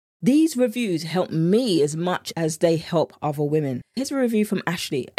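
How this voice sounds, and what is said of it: British accent. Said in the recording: “accent is everything... the British accent in me”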